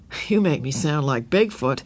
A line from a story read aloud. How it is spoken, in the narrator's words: he said with a rueful laugh